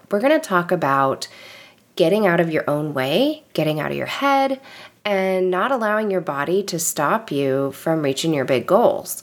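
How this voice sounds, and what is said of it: Slightly nasal, recovering voice. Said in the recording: “my voice is ever so slightly getting back to normal ... my voice sounds a little less nasally”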